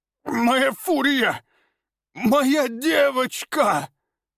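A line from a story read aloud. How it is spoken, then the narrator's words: Grief-stricken sobbing. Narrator (Russian): Рыдал он, понимая, что потерял связь с питомцем навсегда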